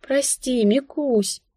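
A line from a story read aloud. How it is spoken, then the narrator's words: Sighing. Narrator (Russian): вздохнула я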